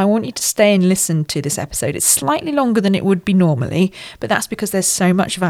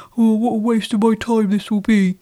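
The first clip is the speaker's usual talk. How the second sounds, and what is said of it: Funny put-on voice. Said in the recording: “did a funny voice”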